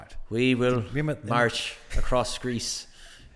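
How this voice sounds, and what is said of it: Colin Farrell's thick Irish accent. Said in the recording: “Colin Farrell, with his accent ... He had his Irish, thick Irish accent.”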